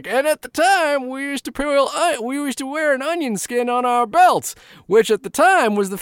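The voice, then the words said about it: Old man character voice. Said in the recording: “Do your old person voice real quick. What's your old person voice? ... What's my old person voice? ... Abe Simpson was like”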